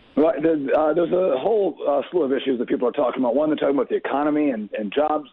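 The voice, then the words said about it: Congested voice from a cold. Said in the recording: “I apologize my voice. I have a bit of a cold”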